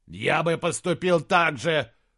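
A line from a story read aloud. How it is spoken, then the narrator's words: Growling. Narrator (Russian): прорычал Саймон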